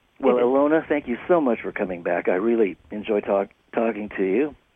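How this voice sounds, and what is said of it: Slightly crackly voice. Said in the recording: “I'm sorry my voice was a little bit crackly”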